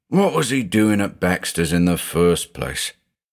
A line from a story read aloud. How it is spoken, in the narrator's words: The investigator sighed